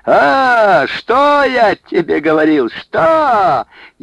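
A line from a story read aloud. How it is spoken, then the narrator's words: Gleeful shouting and whooping. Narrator (Russian): Егорша закричал, заулюлюкал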